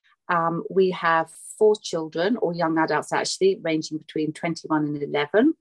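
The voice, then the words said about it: British English accent. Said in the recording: “UK based. You can probably tell by my accent.”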